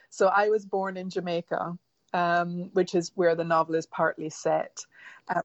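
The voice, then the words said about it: Mixed Caribbean and English accent. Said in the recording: “you have a lovely accent ... It's a real mix, and people are always flummoxed by my accent.”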